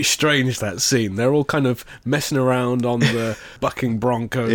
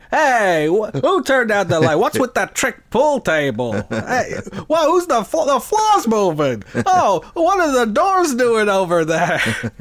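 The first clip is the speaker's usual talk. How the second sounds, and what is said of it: Imitates movie characters' voices. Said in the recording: “It's a good impression.”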